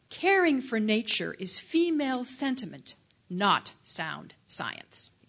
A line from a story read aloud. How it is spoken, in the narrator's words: said